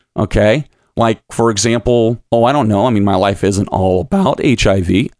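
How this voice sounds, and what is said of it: Voice cracking. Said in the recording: “my voice is cracking like I'm hitting puberty”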